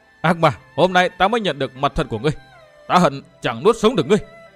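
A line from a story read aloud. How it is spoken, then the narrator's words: Long anguished scream. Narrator (Vietnamese): Dương Viễn hét lên lê thê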